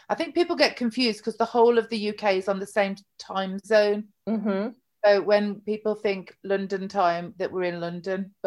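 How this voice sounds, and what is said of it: British English accent. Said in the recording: “if you can't tell by the accent, ... is in London area ... I'm in the Midlands, bang in the middle, in the central of UK”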